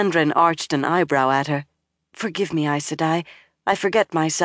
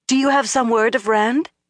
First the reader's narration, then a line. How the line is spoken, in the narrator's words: Egwene asked eagerly